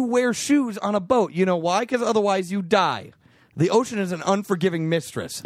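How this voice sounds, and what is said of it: Usual voice. Nothing is said of it.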